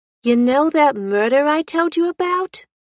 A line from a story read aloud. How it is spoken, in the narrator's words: She asked loudly